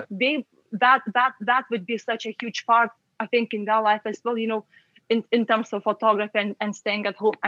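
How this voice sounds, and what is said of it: Lithuanian accent. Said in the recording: “your lovely Lithuanian accent”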